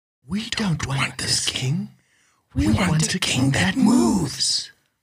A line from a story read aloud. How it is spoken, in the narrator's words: whispered all the frogs